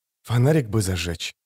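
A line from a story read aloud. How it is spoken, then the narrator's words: Whispered. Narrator (Russian): шепнул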